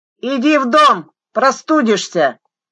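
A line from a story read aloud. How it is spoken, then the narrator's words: Shouting. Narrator (Russian): крикнул Севергин жене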